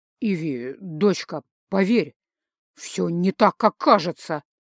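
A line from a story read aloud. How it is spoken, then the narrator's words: Strained, forced out. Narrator (Russian): выдавил он из себя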